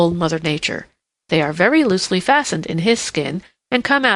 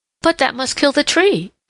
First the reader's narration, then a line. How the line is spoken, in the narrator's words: exclaimed Peter Rabbit